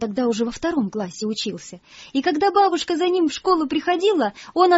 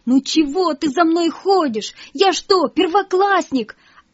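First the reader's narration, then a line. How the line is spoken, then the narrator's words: Ashamed shouting at grandmother. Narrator (Russian): ему так стыдно было, что он даже кричал на свою бабушку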